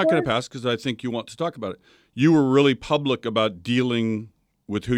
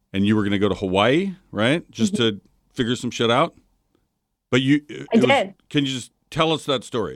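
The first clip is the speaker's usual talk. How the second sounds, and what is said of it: Emotional, choked-up voice. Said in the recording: “I'm getting choked up.”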